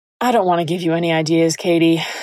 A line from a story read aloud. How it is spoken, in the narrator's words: sighed